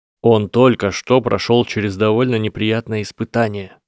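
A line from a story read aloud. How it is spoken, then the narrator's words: Plain. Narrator (Russian): ответил Гарри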